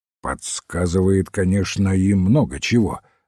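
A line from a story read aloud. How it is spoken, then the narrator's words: Plain. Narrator (Russian): ответил Смит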